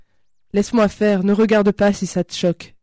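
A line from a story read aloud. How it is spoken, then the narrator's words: Plain. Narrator (French): dit Isabelle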